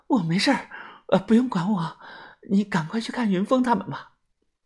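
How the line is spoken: Breathless. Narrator (Chinese): 小轩喘着气说

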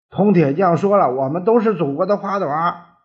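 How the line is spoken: Desperate yelling. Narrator (Chinese): 李光头拼命的叫着

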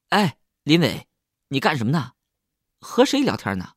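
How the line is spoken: Shouting from afar. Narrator (Chinese): 李亨在远处朝我喊了

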